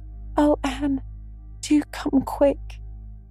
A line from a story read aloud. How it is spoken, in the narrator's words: implored Diana nervously